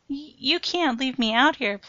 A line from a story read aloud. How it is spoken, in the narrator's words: pleaded Jose